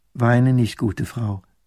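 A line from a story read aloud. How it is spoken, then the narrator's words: Plain. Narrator (German): sagt das Fräulein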